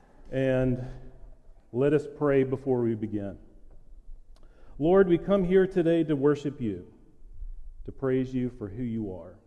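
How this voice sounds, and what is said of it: Flat monotone voice. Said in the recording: “my monotone voice”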